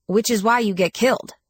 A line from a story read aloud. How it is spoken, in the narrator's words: snapped